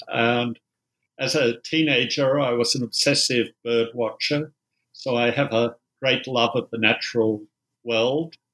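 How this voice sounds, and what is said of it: Australian accent. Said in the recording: “I'm an Australian, you might tell from the accent.”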